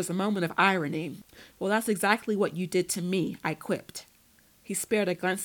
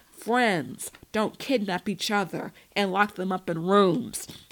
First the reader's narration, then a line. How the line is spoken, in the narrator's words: Devlin said through gritted teeth